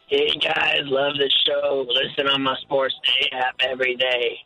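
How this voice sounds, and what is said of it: Caller putting on a fake voice. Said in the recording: “Fake voice.”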